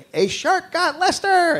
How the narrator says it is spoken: They're screaming

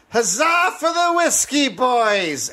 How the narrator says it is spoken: a drunk yelled

